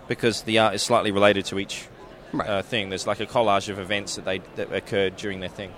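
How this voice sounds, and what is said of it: Southern US accent. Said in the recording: “is from Savannah, Georgia, from his accent. ... Actually, I'm from Mississippi. ... I knew it was somewhere down in that south.”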